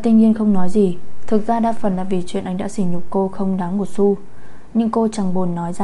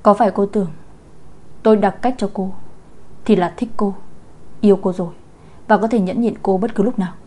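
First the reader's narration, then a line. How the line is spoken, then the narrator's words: Cold. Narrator (Vietnamese): Nam Công Thiên An lạnh lùng nói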